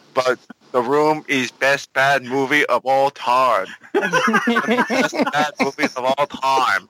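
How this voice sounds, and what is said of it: Imitates another person's voice. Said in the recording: “my really bad Tommy Wiseau impression”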